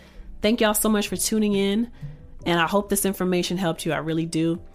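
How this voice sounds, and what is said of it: Voice giving out, strained. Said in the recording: “y'all can hear that my voice is starting to go out”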